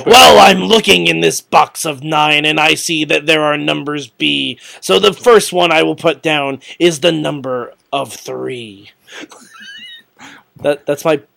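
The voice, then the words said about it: Imitates another person's voice. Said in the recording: “bad Paul Ellering impression”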